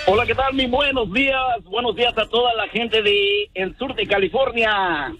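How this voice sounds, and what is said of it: Radio announcer-like voice. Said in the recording (Spanish): “usted tiene como voz de locutor ... Tiene mejor voz que el Feyo y que el Pelón. ... Este sí puede ser locutor.”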